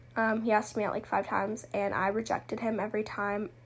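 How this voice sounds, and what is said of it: Talking very fast. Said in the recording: “I'm talking so fast.”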